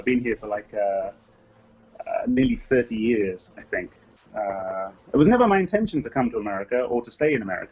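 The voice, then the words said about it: English accent. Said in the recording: “I'm hearing a, an English accent”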